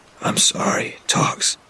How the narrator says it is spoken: I said to him, my voice a wreck

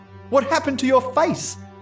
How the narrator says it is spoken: I cried

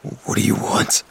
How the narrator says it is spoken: I whispered, petrified, my heart pounding

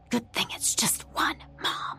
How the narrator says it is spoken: she fairly hissed

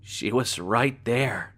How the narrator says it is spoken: Maya said quietly

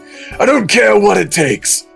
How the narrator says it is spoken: Vegeta said hotly

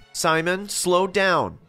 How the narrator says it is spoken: said in a loud voice

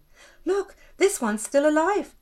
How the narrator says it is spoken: Canter exclaimed

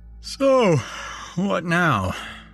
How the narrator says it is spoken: I said, yawning

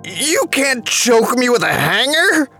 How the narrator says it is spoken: shouted

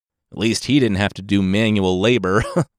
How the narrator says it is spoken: Poseidon laughed

